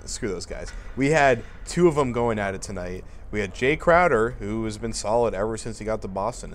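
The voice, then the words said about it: Hoarse, sick-sounding voice. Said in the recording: “before I lose my voice here, as I'm pretty under the weather”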